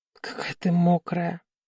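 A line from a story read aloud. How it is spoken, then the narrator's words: Hoarse, unnatural voice. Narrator (Russian): прохрипел он не своим голосом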